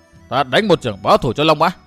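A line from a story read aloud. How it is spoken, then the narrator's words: Shouted. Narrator (Vietnamese): quát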